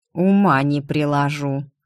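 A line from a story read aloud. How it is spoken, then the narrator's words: Through gritted teeth. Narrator (Russian): сквозь зубы процедил историк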